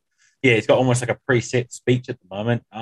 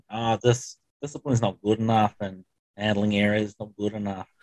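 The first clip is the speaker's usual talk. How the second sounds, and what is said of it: Attempted Australian accent. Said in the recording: “That was my Australian accent. ... I tried. ... The jury is out on the accent.”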